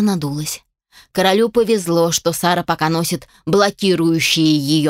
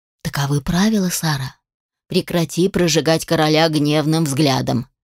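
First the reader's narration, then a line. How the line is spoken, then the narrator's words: Whispered. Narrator (Russian): шепнул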